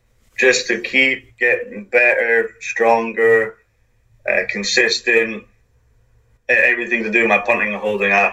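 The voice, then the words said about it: Southern American twang. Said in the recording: “twang at the end of what I say ... talking real fast”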